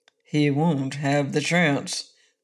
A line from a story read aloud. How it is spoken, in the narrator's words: grumbled the Bear King